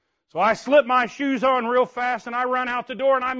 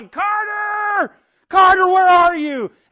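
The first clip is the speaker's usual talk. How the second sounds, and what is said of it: Yelling a name. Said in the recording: “I'm yelling,”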